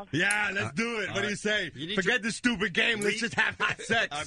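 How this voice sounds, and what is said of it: Imitates another person's voice. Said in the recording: “his Arnold Schwarzenegger impression”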